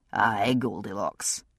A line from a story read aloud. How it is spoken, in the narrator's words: Jamie said very dryly